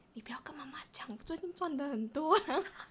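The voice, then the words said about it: Quiet, whispered speech. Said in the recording (Chinese): “他还偷偷突然小声的跟我说”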